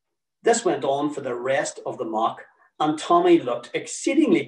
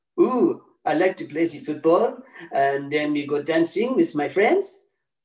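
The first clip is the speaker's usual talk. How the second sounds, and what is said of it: English with put-on French accent. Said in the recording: “in English, but with a French accent ... like a bloody episode of Hello, Hello”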